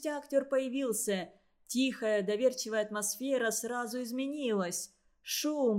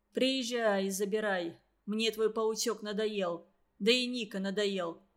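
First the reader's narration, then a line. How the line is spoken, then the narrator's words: Grumble. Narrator (Russian): проворчал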